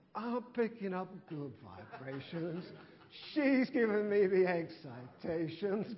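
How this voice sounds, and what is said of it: Terrible singing voice. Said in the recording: “Terrible voice. Sorry about the voice.”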